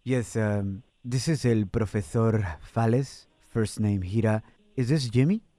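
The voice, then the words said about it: Put-on Spanish (Spain) accent. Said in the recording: “I'm going to try to do my best Spain accent.”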